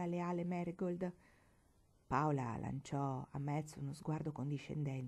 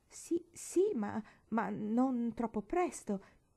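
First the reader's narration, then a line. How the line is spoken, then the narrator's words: Uneasy stammering. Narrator (Italian): balbettò Metz poco tranquillamente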